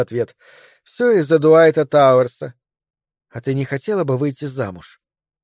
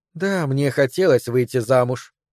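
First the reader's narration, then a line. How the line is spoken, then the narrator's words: Quiet. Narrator (Russian): негромко сказала она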